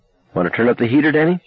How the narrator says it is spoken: Mom asked brightly

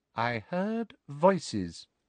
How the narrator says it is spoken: she said quietly

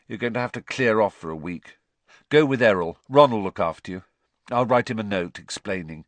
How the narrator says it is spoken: he said gloomily

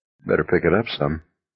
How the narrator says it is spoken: McVries said gently

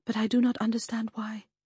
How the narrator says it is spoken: said quite calmly, too calmly, it seemed

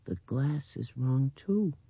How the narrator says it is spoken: she said in that dreaming voice

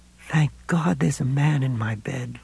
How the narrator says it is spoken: Lois said sleepily

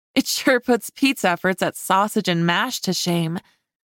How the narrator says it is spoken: Darcy agreed with a laugh

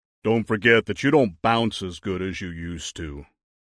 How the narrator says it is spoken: Big Guy grumbled

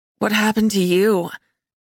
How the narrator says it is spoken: I asked Darcy, my voice rasping through my raw throat

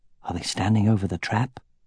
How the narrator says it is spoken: asked, keeping his voice low

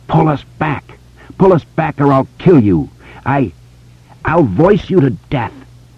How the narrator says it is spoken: The spider screeched again

